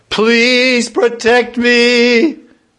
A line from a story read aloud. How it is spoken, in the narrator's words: He called out